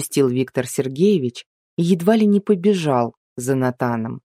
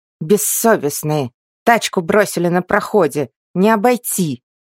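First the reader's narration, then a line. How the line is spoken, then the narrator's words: Angry grumbling. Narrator (Russian): заворчала Акулина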